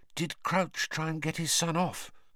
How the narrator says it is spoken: Hermione whispered

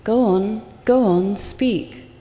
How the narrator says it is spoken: cried Rinzai

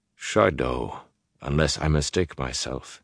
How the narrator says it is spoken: he said quietly

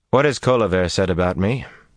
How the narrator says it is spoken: Rand asked Soralea in a too casual tone

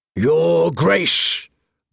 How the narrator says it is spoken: barked Lord Umber, the Great John, ever the loudest of Rob's northern bannermen

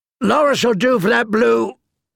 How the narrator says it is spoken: a companion answered before a roar drowned out the rest of his words

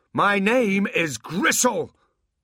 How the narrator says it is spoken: He roared

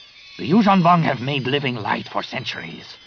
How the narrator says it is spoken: Nomanor snapped

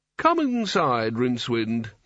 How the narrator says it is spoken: said kindly

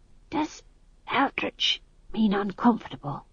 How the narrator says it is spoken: he hissed

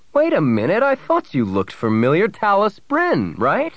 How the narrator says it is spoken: he exclaimed

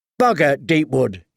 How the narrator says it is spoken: he said

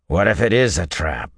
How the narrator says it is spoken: Arganda growled, almost a wolf's guttural growl

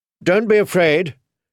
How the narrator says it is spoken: she told them loudly

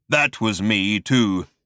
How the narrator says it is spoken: continued the voice in a low, menacing rumble

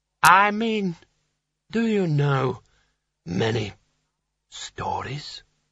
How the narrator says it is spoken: he croaked

